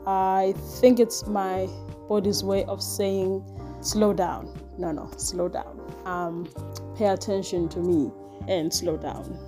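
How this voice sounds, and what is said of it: Voice sounds off, sore throat. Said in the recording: “my voice sounds funny, that's because my tonsils flared up”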